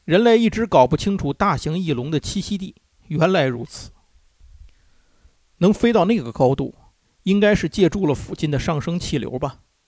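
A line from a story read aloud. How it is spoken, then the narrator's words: Plain. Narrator (Chinese): 福斯船长接着说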